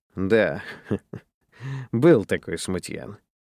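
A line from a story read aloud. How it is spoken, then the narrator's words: Laughing. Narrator (Russian): рассмеялся Дженкинс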